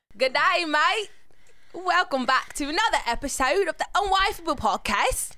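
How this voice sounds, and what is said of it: Bad put-on Australian accent. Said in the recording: “trash-ass Australian accent”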